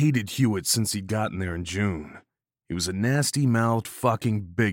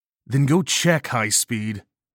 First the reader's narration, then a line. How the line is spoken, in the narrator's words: I snarled back